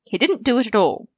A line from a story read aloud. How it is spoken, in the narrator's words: Sirius said tightly